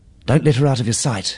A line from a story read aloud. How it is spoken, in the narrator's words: she panted